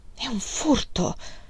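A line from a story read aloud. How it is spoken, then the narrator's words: Reluctant murmur. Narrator (Italian): mormorò riluttante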